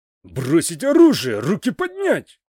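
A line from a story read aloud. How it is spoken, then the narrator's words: Angry barked order. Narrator (Russian): лицо сержанта стало злым, и он рявкнул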